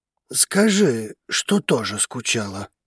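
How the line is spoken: Whisper. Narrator (Russian): Драгос прошептал

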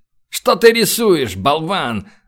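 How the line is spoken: Growling. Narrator (Russian): зарычал он

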